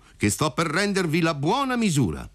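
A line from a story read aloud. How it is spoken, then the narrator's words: Shouted. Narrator (Italian): gli gridò compar Alfio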